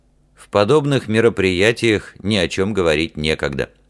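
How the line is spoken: Dry reply. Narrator (Russian): сухо отозвался Ральф

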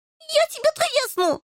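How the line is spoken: Shrieking. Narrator (Russian): завизжал Рыжий

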